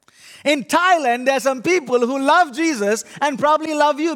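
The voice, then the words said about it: Indian accent, unusual syllable stress. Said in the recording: “My funny accent is actually I'm an Indian ... my funny accent tells you that I put the emphasis on the wrong syllable”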